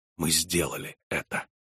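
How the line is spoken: Whisper. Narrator (Russian): прошептал

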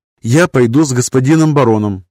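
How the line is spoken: Firm, commanding. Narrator (Russian): непререкаемым тоном сообщила госпожа баронесса

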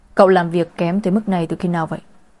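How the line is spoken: Cold. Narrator (Vietnamese): Anh lạnh lùng nói với thư ký Tử

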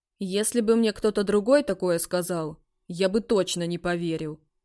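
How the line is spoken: Snorting. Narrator (Russian): хмыкнул тот

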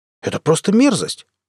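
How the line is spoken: Calmer exclamation. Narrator (Russian): воскликнул, успокоившись, Иосиф Кляйн

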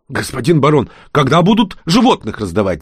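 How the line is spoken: Crowd shouting. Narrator (Russian): закричали самые смелые из толпы

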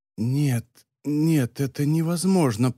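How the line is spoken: Whisper. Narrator (Russian): прошептал он

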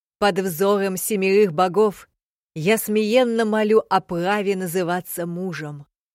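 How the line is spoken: Loud and solemn. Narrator (Russian): Громко и важно проговорил Куиджи

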